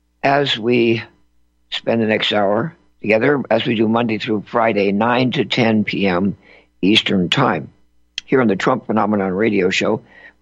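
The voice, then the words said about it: Slightly hoarse voice. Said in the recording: “my voice may sound a little bit hoarse”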